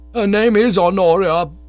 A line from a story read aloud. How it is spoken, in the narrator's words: bawled Bingo reverently